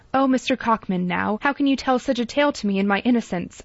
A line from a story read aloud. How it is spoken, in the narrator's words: she cried gaily